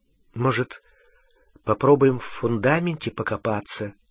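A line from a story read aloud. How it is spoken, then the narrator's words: Uncertain suggestion. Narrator (Russian): неуверенно предложила Гермиона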